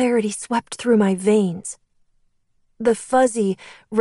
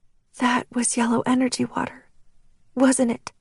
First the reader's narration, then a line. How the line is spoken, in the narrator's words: I whispered